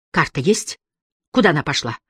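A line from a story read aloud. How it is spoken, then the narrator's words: Quiet and fast. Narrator (Russian): Харри говорил тихо и быстро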